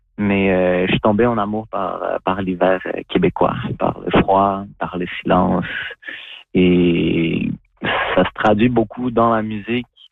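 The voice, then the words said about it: Convincing Québécois French accent. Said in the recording (French): “j'arrive à avoir un bon accent québécois pour que les gens ils se demandent « Est-ce que t'es né au Québec? »”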